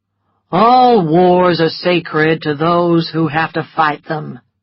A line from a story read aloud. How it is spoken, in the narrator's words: replied Rhett in a bored and lazy voice